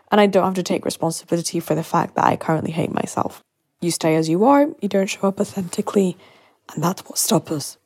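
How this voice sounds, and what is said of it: Hoarse, strained voice. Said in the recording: “Losing my voice here.”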